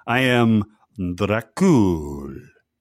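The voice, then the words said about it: Imitated Dracula accent. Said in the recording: “He can carry off the accent, though.”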